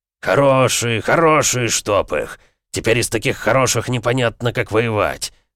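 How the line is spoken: Grumbling. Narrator (Russian): ворчал Эмик

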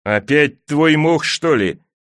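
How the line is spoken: Moaning. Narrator (Russian): простонал Джендри

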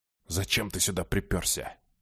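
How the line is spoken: Furious venomous hiss. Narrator (Russian): прошипел обережник, посрамив разъяренную ухтайскую гадюку

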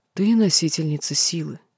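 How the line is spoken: Barely audible. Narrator (Russian): едва слышно начал говорить он

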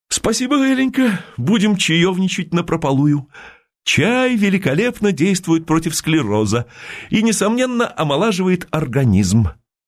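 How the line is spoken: Animated exclamation. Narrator (Russian): Тень Мукомолова ... воскликнул с оживлением

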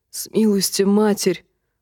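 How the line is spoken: Breathless exhale. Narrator (Russian): выдохнул Тимиан

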